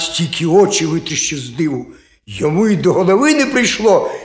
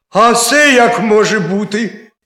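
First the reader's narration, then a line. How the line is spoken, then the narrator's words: Hare crying out. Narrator (Ukrainian): скрикнув заєць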